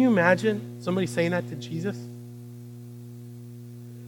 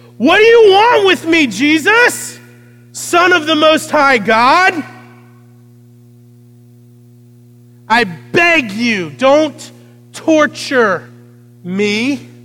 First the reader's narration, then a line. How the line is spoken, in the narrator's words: he cried out, shouting at the top of his voice